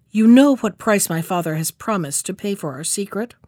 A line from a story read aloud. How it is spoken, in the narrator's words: said to him in a harsh voice